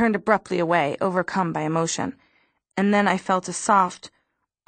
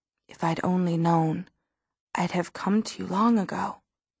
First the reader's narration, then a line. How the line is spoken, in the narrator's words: Then he said very softly